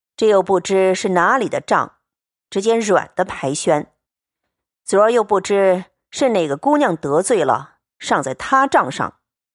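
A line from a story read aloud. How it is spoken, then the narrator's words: Sighing. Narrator (Chinese): 宝玉叹道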